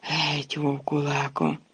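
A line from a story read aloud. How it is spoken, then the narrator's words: Moaning. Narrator (Ukrainian): Рон простогнав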